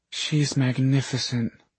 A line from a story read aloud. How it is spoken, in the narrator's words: Julie breathed